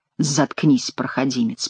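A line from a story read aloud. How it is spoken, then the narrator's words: Whisper. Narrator (Russian): прошептал Шико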